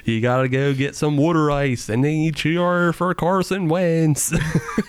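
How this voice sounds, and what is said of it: Put-on Philadelphia accent. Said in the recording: “this is the Philly accent.”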